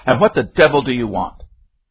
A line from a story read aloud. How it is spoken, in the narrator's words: demanded savagely